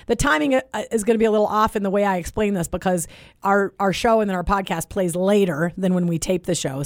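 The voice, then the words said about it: Hoarse voice. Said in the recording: “my hoarse voice ... I'm hoarse because I was screaming along”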